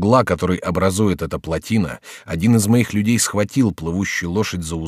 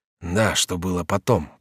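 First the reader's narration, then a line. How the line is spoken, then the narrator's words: Muttering. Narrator (Russian): пробормотал Реми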